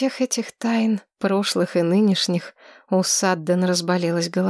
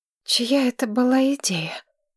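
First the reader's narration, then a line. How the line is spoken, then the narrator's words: Hoarse voice. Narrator (Russian): охрипшим голосом спросила Маргарет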